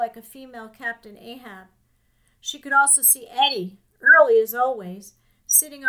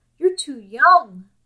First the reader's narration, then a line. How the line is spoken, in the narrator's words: pleaded Nanny